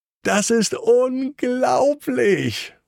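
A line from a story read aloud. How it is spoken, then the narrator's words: Enthusiastic call. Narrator (German): ruft ganz begeistert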